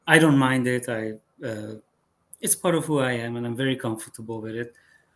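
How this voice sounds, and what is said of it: Non-native accent. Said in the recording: “I just have the accent, and it's never going to go away ... they're not used to hearing somebody have an accent”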